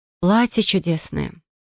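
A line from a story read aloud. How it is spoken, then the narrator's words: Breathless exhale. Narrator (Russian): выдохнула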